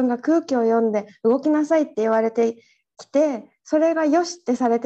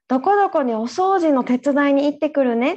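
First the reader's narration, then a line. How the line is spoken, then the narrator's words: Plain. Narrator (Japanese): って朝言ってきたんだよね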